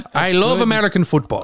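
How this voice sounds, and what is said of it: Exaggerated put-on foreign accent. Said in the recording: “That is your Irish. You're Irish. That's the best Irish. ... I don't even know what accent you're doing. ... Are you South American? ... You sound Cuban. ... stop doing impressions.”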